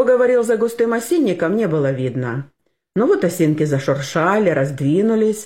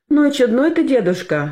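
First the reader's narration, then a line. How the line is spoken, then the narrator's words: Girl's laughter. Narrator (Russian): засмеялась девочка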